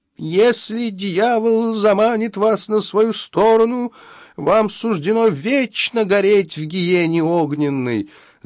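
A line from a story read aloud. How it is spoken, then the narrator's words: Preacher's wailing yell. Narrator (Russian): завопил преподобный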